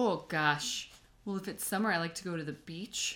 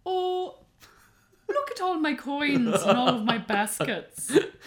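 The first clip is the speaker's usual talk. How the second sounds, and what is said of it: Put-on Irish accent. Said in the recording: “I like to do the Irish accent”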